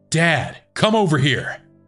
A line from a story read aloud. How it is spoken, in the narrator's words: randomly started shouting